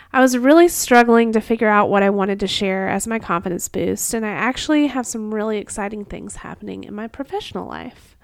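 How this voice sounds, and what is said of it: Sick-sounding voice. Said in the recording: “As you can probably hear in my voice, I am sick”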